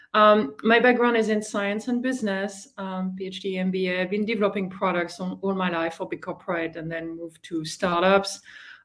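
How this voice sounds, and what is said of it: French accent. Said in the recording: “I am originally from France, as you may guess from the accent”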